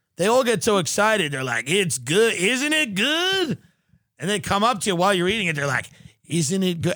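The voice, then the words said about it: Put-on Texas twang accent. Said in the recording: “I'm doing this Texas accent, this twang.”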